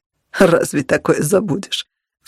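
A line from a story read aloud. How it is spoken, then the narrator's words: Snort. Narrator (Russian): фыркнул он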